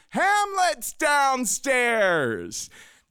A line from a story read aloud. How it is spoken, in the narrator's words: started yelling to my brothers and sisters